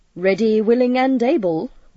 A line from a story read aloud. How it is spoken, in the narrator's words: was Chris's laughing reply